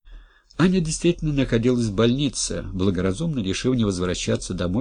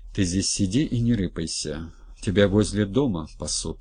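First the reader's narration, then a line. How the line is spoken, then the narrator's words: Plain. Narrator (Russian): сказал Голованов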